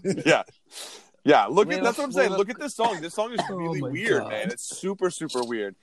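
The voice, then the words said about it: Strained, worn-out voice. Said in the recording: “my voice is shot today”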